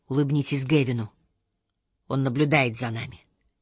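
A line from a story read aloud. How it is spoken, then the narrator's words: Whispered. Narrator (Russian): Курт шепнул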